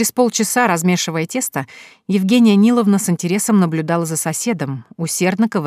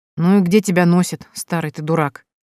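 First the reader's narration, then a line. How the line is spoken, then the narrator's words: Displeased grumbling woman. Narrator (Russian): Недовольно пробурчала Евгения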